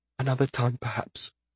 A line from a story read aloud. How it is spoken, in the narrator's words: Finally, he whispered